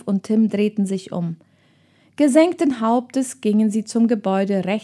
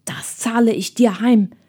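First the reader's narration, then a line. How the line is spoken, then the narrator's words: Hissed. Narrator (German): zischte Ralf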